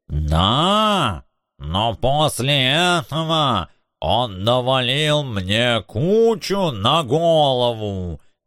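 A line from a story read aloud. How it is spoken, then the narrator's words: Growling giant. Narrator (Russian): зарычал бронзовый титан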